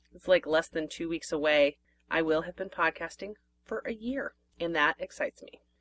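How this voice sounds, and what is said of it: Slightly hoarse voice. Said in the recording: “My voice is getting a little hoarse”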